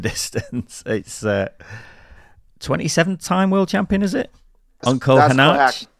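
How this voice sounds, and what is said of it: Northern English accent, Manchester-Liverpool. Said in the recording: “kind of remind me of a combination. Sound like a cross between Manchester and Liverpool. ... Manchester's not far off. Not quite the Scouse lilt.”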